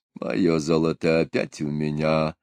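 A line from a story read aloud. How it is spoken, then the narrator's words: Muttering to himself. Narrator (Russian): бормотал про себя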